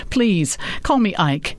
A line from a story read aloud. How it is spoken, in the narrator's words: Ike laughed and said